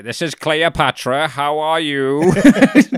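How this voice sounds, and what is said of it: Funny put-on channeler voice. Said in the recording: “Speaking in a funny voice.”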